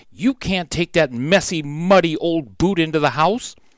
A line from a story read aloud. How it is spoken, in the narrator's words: said firmly